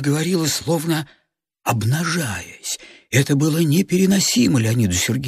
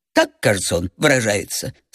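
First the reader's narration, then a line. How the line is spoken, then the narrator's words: Sarcastic laugh. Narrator (Russian): саркастически засмеялась она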